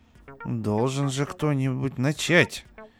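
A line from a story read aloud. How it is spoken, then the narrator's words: Grumbling. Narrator (Russian): проворчал Иван Иванович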